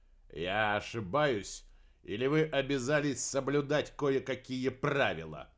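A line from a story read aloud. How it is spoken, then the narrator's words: Rude. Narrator (Russian): грубо продолжил Купер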